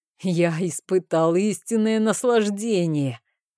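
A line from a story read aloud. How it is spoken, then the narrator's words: Laughing loudly. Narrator (Russian): расхохотался Жорж Деваларен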